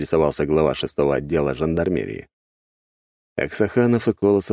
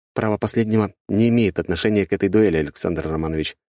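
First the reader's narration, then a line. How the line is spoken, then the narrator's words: Calm reply. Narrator (Russian): спокойно ответил я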